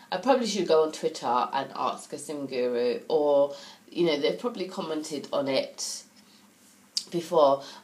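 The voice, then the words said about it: Nasal voice from a cold. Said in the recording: “I have a bit of a cold. I'm developing a cold ... So if I sound a bit nasally”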